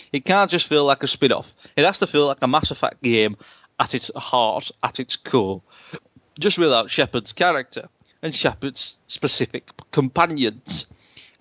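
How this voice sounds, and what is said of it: Reads in a put-on accent. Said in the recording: “I don't know why I'm doing the accent.”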